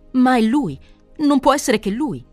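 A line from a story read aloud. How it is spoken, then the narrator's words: Exclaiming. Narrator (Italian): esclamò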